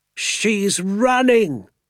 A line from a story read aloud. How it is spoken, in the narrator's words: Doc Spencer cried